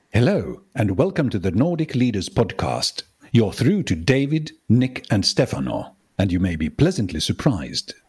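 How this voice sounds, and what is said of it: Put-on English accent. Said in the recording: “one of my strange accents... It's a great English accent you have there”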